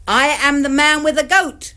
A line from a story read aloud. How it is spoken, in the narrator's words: He shouted